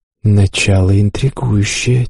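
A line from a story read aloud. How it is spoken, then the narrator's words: Quiet speech. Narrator (Russian): тихо проговорила спутница любопытного посетителя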